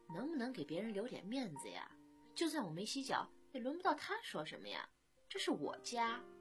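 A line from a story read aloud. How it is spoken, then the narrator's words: Embarrassed quiet grumble. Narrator (Chinese): 飞宇的脸腾的一下子就红了，小声地抱怨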